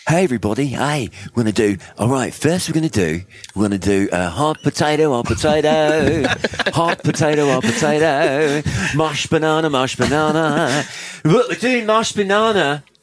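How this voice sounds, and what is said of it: Put-on Australian children's-entertainer accent. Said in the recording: “Do an Australian accent for us. Actually, you do one. ... like the Wiggles.”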